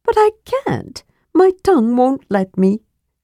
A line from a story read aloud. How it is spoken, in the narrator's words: said Tass, sighing